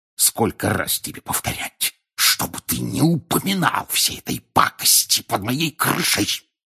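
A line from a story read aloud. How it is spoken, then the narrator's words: Hissed. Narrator (Russian): прошипел он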